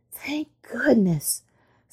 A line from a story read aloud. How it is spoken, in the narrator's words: sighed